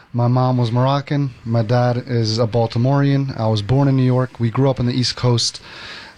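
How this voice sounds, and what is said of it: Mixed, unusual accent. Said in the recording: “Where's that crazy accent from? ... That accent is a little bit of a mixed pot.”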